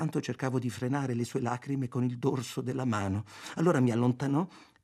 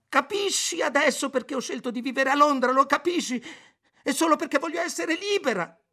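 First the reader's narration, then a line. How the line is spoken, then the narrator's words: Screamed. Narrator (Italian): urlò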